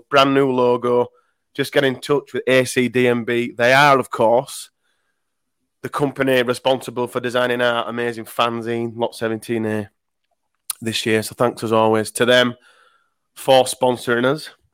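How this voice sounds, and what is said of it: Rough, worn-out voice. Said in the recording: “I sound like shit ... Sound like rubbish. My voice is still recovering from Saturday ... I clearly wasn't shouting enough.”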